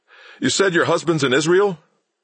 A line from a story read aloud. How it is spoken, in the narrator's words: the reporter called out